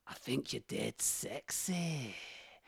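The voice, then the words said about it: Impression of a Scottish woman. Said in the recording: “my excellent impression of the character Jo Davidson. She's a Scottish lady ... sounds a bit like Fat Bastard from Austin Powers”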